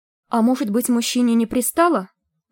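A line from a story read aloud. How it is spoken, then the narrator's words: Thin, high voice. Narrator (Russian): начала тоненьким голосом Крейри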